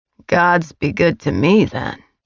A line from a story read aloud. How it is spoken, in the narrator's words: he murmured